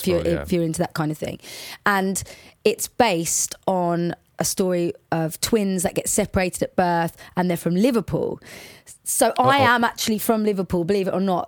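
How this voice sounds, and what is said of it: Watford English accent. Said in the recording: “This Watford accent doesn't sound very Scouse, does it?”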